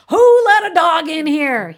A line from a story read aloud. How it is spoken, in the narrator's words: he kept on shouting